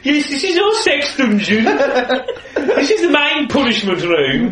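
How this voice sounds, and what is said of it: Mock Midlands English regional accent. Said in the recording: “They used to dub them over with English regional accents ... they're like Geordies or Brummies ... people from Prague all spoke with a Midlands accent.”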